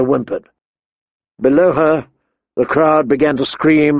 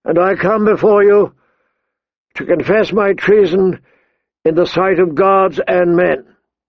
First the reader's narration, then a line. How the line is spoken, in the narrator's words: he said more loudly, his voice carrying across the plaza